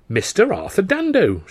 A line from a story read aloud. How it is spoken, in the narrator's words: cried when she saw me